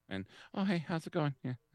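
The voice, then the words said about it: Imitates another person's voice. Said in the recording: “my Kyle imitation”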